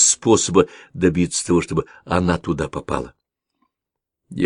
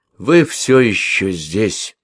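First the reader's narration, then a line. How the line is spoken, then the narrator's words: Sad. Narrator (Russian): печально произнес Созамян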